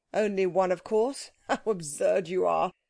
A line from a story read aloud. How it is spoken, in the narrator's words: said her husband, laughing